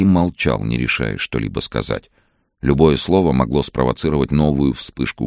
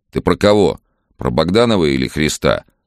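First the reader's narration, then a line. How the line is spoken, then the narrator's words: Father asking sternly. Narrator (Russian): строго спросил отец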